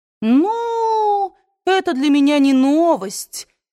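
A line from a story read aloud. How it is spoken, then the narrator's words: Disappointed drawl. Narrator (Russian): разочарованно протянула Скарлетт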